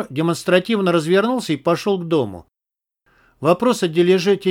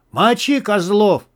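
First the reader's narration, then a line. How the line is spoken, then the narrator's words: Beast roaring from behind. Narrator (Russian): заорал позади зверь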